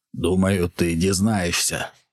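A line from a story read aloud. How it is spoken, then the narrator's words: Hoarse. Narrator (Ukrainian): прохрипів Майкрофт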